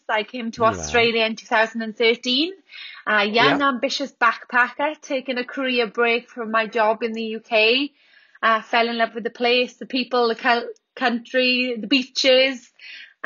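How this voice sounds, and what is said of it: Welsh accent. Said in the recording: “as you can hear from my accent, I'm from Wales.”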